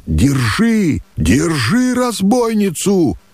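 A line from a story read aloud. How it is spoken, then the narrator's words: Thundering shout from bushes. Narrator (Russian): прогремело в кустах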